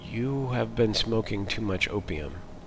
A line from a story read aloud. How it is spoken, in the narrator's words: whispered Hammond